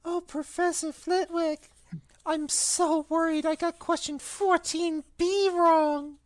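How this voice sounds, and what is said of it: Put-on high-pitched voice. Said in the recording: “Put on a high voice. ... he put on a high voice.”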